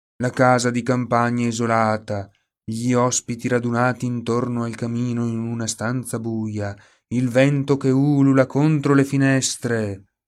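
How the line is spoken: Whiny added remark. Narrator (Italian): aggiunse Oliver sempre in tono lamentoso

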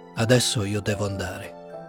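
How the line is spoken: Dull, flat voice. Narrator (Italian): rispose dopo un po' con voce opaca

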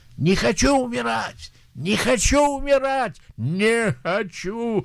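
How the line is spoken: Dying man screaming. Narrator (Russian): когда он умирал, он кричал

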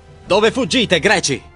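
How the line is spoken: Shouting while advancing. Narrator (Italian): grida avanzando

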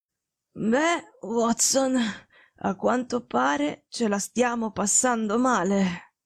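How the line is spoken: Faint, slightly nonchalant. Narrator (Italian): disse con voce fievole, ma con un accenno della sua solita noncuranza

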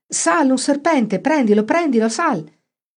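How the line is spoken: Everyone shrieking. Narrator (Italian): tutti strillarono

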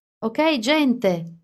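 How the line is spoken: Shout. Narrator (Italian): urlò Alice

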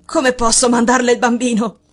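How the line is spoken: Exclamation. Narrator (Italian): esclamò

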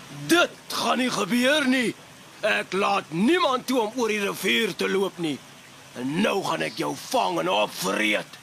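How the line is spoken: Monster roaring threateningly. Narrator (Afrikaans): brul die riviermonster dreigend

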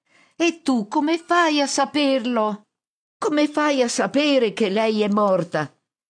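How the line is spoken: Shouting back. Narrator (Italian): Mi urla di rimando

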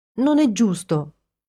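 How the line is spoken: Proclaiming, then whimpering. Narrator (Italian): proclamò Ginny e incominciò a piagnucolare

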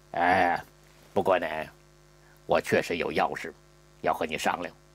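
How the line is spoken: Hushed voice. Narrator (Chinese): 舒禄压低了声音

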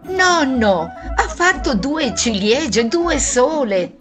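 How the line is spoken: Shrill child's shriek. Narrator (Italian): si udì Giovannino strillare

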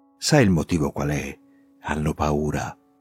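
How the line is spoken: Conspiratorial whisper. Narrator (Italian): con aria di complotto mi dice sottovoce

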